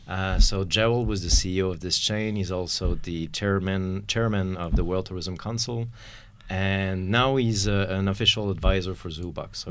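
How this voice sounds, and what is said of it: French accent. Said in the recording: “despite the French accent”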